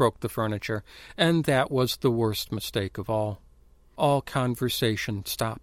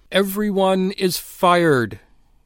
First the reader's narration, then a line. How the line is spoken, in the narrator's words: he cried into the silence, his voice like a plague of tongues